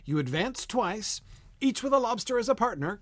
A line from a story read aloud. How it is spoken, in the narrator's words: cried the Griffin